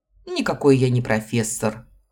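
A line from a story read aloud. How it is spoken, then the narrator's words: Man's scoffing snort. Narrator (Russian): хмыкнул мужчина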